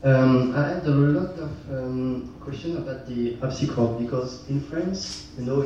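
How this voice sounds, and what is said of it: French-accented English. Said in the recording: “Sorry for the accent.”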